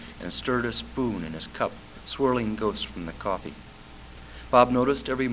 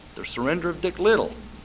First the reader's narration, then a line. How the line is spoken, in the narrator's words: Charlie said, perhaps too urgently